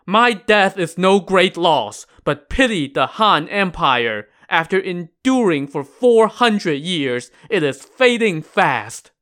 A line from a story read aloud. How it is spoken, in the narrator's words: Liu Tao cried out